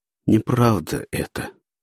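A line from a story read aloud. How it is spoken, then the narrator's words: Hoarse and quiet. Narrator (Russian): хрипло и тихо произнес Пашка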